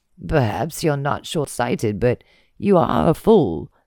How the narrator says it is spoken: Sin rasped

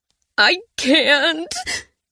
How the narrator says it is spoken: wailed

